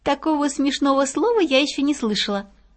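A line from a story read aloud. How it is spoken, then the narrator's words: Laughing. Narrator (Russian): засмеялась Пятнашка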